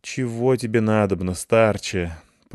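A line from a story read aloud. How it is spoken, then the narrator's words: Sleepy moan. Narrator (Russian): простонал я сквозь сон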